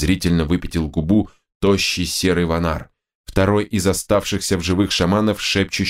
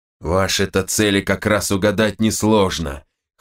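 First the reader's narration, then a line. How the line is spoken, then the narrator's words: Wry snort. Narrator (Russian): хмыкнул Нгала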